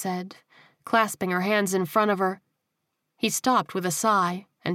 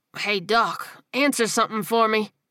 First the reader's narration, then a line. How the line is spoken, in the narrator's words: he said through gritted teeth, as the first wave of nerve pain coursed through his body